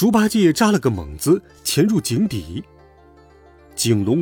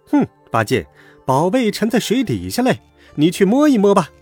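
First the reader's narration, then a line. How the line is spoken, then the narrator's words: Laughing. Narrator (Chinese): 孙悟空笑道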